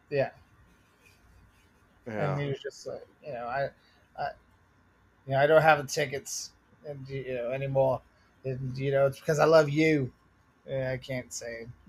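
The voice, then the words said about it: Boston accent with British-sounding vowels. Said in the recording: “Why does he sound like the Rolling Stones? ... my Bostonian accent goes British when I get to certain vowels.”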